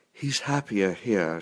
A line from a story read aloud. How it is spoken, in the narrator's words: whispered